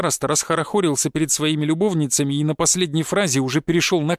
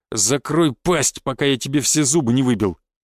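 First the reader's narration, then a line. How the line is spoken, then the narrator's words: Growl. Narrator (Russian): прорычал я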